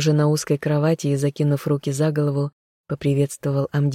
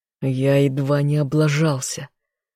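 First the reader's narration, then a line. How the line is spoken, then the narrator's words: Growled reply. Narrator (Russian): рыкнул в ответ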